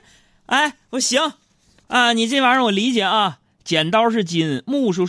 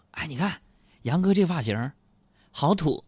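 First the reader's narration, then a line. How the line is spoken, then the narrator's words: Muttering. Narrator (Chinese): 小爱、小胡在那嘀咕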